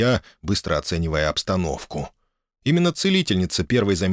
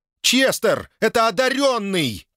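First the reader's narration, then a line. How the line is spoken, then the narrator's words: Woman shouting. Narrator (Russian): крикнула она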